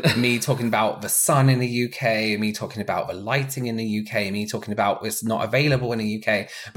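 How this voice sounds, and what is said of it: English accent. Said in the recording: “my English accent.”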